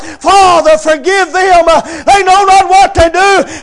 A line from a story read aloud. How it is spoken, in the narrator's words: Jesus Christ cries out